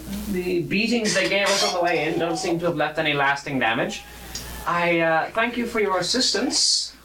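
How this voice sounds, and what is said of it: Gnomish character voice. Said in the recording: “I thought the accent just became more gnomish. ... And just getting into character.”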